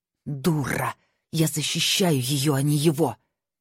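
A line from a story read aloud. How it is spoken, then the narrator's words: Hissing. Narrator (Russian): прошипела она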